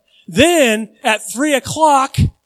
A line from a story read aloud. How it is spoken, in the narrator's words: Jesus cried out with a loud voice